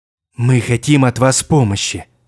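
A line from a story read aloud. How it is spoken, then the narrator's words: Ingratiating tone. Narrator (Russian): вкрадчивым тоном сказала Фрига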